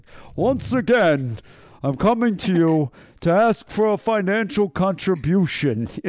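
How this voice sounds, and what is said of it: Imitates another person's voice. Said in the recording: “I kind of feel like I sound like Bernie Sanders ... good impression ... You were Bernie then.”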